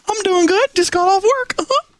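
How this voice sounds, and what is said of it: Mickey Mouse cartoon voice impression. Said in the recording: “impersonator... Mickey Mouse. Mickey, how are you doing? Coming in from Anaheim?”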